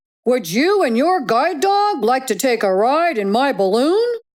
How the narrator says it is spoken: a voice called out to Sam

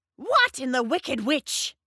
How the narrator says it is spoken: screeched Drusilla

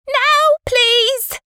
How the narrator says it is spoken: screeched Aunt Celia

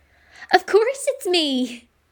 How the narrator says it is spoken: laughed

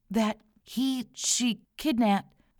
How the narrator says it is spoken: a short woman stammered

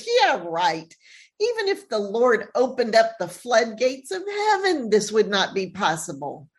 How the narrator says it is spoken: The officer who is with the king snorts with laughter and says

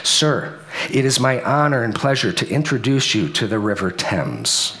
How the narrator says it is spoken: James, the butler, calmly stated this

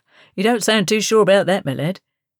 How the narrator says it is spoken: laughed the sailor, not unkindly

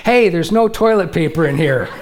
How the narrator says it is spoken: yelled out very loudly

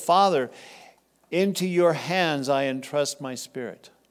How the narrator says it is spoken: Jesus called out with a loud voice

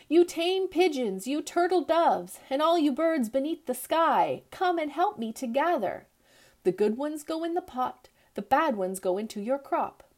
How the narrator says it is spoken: called out

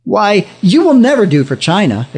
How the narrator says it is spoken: exclaimed the missionary

